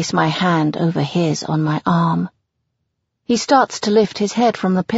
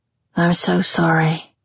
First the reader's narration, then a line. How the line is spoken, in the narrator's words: murmurs